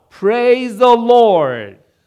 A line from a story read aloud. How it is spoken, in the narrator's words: she found a large bag of groceries on her porch, which caused her to shout